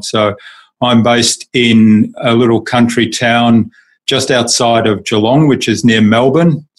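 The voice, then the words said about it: Australian accent. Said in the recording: “we can hear that accent ... I'm actually German by birth ... But I've lived in Australia for most of my life, so that's where the accent comes from.”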